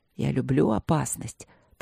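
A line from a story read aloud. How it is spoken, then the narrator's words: Whispered into the ear. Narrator (Russian): прошептал Люк мне на ухо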